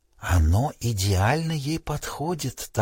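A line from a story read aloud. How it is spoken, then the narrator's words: Whispered reply. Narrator (Russian): так же шепотом ответила она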